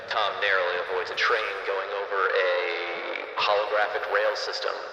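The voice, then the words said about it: Sports announcer voice. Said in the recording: “This isn't the right announcer voice.”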